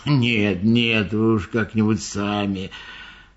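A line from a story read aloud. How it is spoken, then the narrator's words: Grumbled. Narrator (Russian): Слон буркнул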